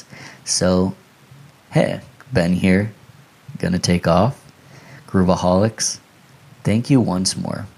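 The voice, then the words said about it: Strained, hoarse voice. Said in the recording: “I'm losing my voice.”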